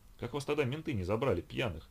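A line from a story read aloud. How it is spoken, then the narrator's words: Amused, laughing question. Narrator (Russian): слегка посмеявшись над его историей, спросил Сергей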